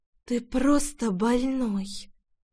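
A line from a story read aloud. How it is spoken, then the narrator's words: Close breathy exhale. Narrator (Russian): выдохнула Рейна, касаясь своим дыханием его щеки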